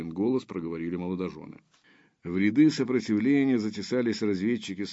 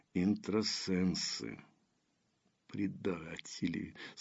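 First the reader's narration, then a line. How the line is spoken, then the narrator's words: Hissed through clenched teeth. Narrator (Russian): сквозь зубы процедила Дарья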